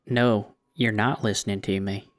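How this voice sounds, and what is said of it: Impression of the Mulholland Drive cowboy. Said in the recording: “give me a little bit of the cowboy ... your impersonation of the cowboy gives me chills.”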